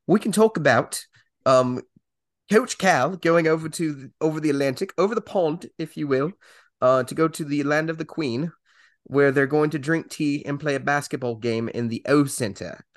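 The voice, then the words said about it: Poor put-on British accent. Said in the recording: “my British accent's terrible ... I can try to do this entire segment in a British accent ... this is just terrible”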